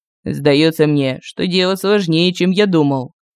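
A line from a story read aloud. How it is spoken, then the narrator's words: Gloomy report. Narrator (Russian): мрачно доложил он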